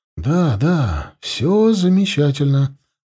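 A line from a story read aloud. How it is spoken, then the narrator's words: Cheerful soothing whisper. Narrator (Russian): бодро прошептал, стараясь успокоить ее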